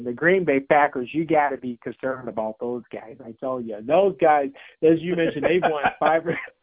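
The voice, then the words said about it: Put-on Wisconsin accent. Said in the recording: “That was my Wisconsin accent if you guys could hear me.”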